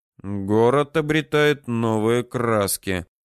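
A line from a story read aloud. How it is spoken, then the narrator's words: Grumbling. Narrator (Russian): проворчал Александр Михайлович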